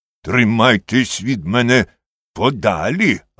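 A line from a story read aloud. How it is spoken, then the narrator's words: Bark. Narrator (Ukrainian): гаркнув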